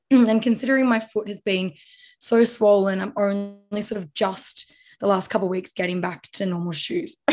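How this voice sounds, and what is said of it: Hoarse, fading voice. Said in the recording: “Gosh, am I losing my voice again?”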